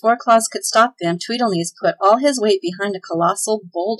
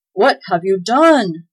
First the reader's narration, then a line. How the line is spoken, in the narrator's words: cried Claus in alarm